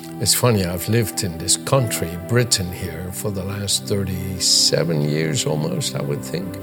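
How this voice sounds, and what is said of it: Dutch accent with American English. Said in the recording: “my accent being a mixture of Dutch from Holland ... I've learned English in an American way”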